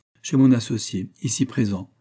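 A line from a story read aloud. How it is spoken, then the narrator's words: Firm voice. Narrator (French): répondit Roger d'une voix ferme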